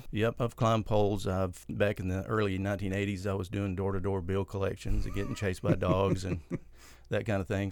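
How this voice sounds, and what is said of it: Texas accent. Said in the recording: “I can tell from your accent a little bit, you may have grown up in Texas.”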